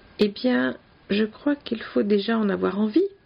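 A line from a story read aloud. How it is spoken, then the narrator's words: Plain. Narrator (French): dit-il finalement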